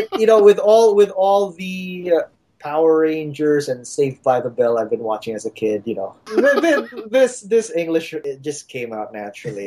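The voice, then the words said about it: American-sounding English accent. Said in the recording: “you don't talk like a Filipino... no, you're not from the Philippines. You're from LA or something.”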